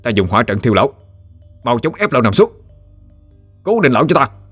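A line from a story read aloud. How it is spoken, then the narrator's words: Loud shouted command. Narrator (Vietnamese): ba đệ tử Lâm gia đã kết trận xong, rồi quát lớn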